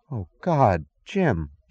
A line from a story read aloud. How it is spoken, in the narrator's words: gasped